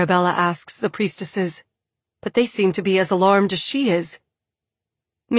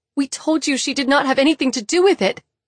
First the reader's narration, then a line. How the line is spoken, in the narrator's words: Bree sobs